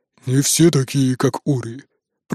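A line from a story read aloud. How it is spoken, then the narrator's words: Grumbling. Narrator (Russian): проворчал Броди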